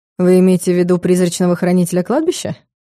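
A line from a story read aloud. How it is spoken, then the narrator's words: Mocking. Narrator (Russian): Насмешливо уточнил Соболев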